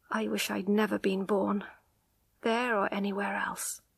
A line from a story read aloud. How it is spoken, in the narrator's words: she said quietly